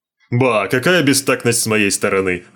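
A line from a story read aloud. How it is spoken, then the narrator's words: Exclamation. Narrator (Russian): воскликнул Смайк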